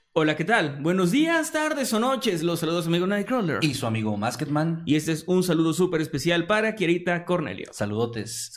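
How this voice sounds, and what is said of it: Dramatic narrator voice. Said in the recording (Spanish): “voz de narrador ... hablando con la voz de narrador”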